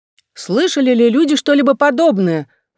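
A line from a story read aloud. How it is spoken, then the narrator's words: Exclaiming. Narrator (Russian): воскликнула Лилиас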